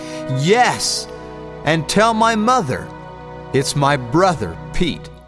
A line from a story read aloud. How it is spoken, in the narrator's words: Hans rise off his rowing bench and shout back